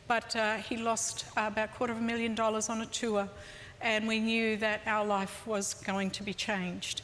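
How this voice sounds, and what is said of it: Australian accent. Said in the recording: “I hope you can still tell from the accent that there are Australian roots there.”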